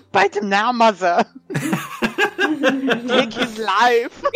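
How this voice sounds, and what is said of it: German-accented character voice. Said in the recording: “doing a Levette impression... That went from German to Arnold”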